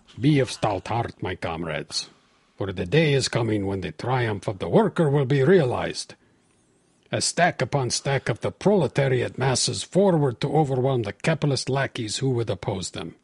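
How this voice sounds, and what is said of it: Put-on Russian accent. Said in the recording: “Maybe I should read it in a Russian accent.”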